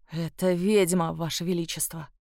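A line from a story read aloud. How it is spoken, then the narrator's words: Offended mutter. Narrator (Russian): пробормотал оскорбленный де Мале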